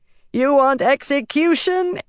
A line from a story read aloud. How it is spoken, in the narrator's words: Elida bellowed, recovering her tongue